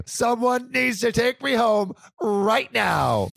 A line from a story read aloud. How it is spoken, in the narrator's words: scream